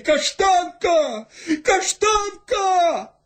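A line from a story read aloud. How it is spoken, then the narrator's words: Shouting. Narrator (Russian): кричали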